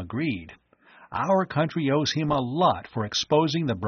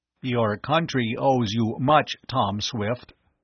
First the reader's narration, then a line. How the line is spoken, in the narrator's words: the creature said